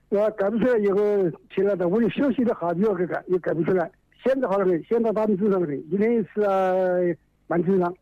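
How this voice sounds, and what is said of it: Regional Chinese accent. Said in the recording (Chinese): “我听你口音，你是哪里人来的呢？”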